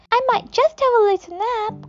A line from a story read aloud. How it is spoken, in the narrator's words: cried Annabel May